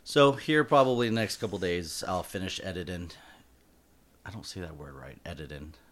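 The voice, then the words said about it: Southern American drawl. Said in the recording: “I have like a like a southern drawl ... I'm from Florida”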